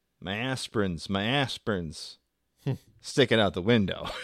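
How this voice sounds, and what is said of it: Put-on Southern accent. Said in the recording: “she's Southern accent”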